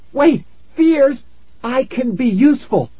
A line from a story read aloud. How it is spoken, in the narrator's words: I cried